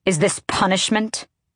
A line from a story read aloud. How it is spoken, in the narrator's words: The words snapped out of her